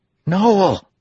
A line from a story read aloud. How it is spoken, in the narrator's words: Alver cried